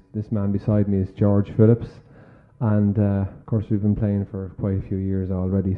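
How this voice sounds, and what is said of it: Irish accent. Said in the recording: “with an accent like this. I'm from Dublin, Ireland”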